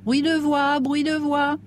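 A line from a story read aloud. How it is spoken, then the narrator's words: Shrill yelp. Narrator (French): glapit une voix aigre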